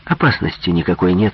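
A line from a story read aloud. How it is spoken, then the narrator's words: Calm. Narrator (Russian): спокойно ответил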